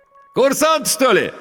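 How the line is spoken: Ringing shout. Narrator (Russian): звонко крикнул водитель

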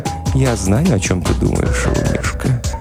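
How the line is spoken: Whispered into ear. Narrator (Russian): Не шептула на ушко

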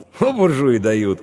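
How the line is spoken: Scoffing snort. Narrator (Russian): хмыкнул Иван

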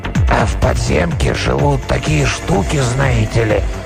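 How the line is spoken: Sudden hoarse trembling voice. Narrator (Russian): Голос, хриплый и дрожащий, прозвучал внезапно откуда-то сзади

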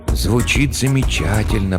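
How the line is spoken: Whisper. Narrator (Russian): прошептал Хендрат

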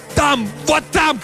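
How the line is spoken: Shout. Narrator (Russian): кричал Картер

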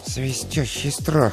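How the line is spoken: Muttering. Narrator (Russian): пробормотал он

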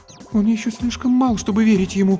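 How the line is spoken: Frightened. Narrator (Russian): испуганно сказала Антония

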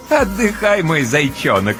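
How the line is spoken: Playful, laughing. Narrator (Russian): с игривым хохотком разрешает Ночка

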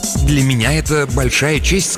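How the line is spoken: Plain. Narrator (Russian): сказал он

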